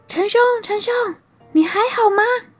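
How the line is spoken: Calling out. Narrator (Chinese): 他就开始喊

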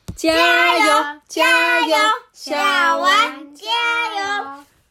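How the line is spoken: Group cheering. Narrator (Chinese): 大伙也一起喊着

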